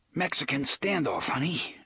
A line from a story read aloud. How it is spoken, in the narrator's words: Eddie panted